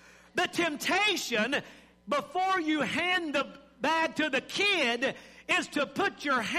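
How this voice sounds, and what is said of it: Usual voice. Nothing is said of it.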